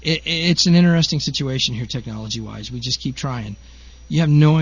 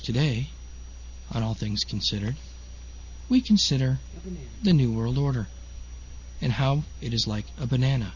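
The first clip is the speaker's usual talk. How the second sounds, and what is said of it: Soft, quiet public-radio announcer voice. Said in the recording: “I got the mic turned down way low. I'm talking in my nice indoor voice. My NPR voice.”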